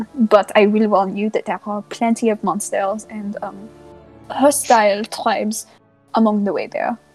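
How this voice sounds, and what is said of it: Put-on French accent. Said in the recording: “I'm absolutely living for this accent... Oh, my French accent?”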